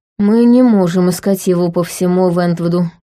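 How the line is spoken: Speech with long sigh. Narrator (Russian): сказал Тайлер, протяжно вздохнув

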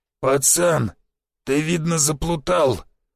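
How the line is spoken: Hoarse older man. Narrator (Russian): хрипло произнес седой длинноволосый наемник

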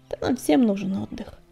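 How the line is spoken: Softened mumble. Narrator (Russian): пробормотал Огнегриф, тая под взглядом ее зеленых глаз

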